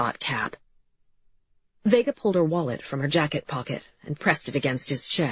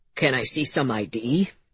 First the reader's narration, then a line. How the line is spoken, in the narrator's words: he said, his voice lower, trying to act tough